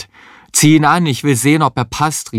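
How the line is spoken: Called with mouth full. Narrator (German): rief Heinz mit vollem Mund

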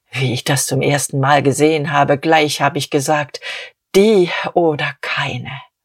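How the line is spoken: Infatuated murmur. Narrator (German): Diederich murmelte betört

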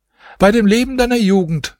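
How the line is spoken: Housekeeper calling out. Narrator (German): rief die Wirtschafterin

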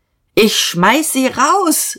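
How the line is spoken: Call out. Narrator (German): rief Dieterich

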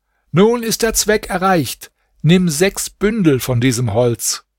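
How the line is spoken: Magician calling upward. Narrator (German): Der Magier aber rief hinauf

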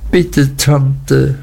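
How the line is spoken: Sobbing. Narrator (German): schluchzte Emily

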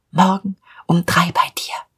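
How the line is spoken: Whispered. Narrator (German): flüsterte ihm zu

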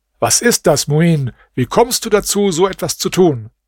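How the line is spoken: Angry shout. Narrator (German): der König dies sah, rief er ihm voll Zorn zu

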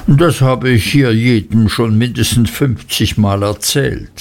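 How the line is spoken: Plain. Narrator (German): sagte Mrs

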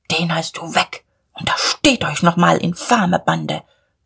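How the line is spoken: Murmur. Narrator (German): murmelte Diederich

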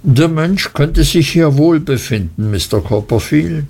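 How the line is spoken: Plain. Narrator (German): sagte Markham

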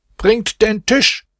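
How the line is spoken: Shout. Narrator (German): schrie er

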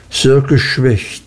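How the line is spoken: Plain. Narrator (German): sagte Mr

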